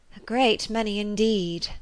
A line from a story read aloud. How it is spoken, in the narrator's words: said her companion with a sigh